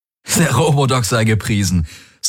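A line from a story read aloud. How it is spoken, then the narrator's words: Laughing. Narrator (German): sagte er lachend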